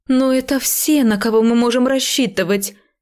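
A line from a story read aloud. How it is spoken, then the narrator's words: Exasperated exclaiming. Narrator (Russian): в сердцах воскликнула Делия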